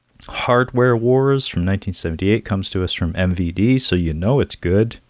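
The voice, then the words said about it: Sarcastic tone. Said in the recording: “That's me being sarcastic.”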